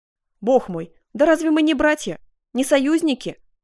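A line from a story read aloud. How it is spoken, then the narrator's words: Exclaiming. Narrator (Russian): воскликнул Карл V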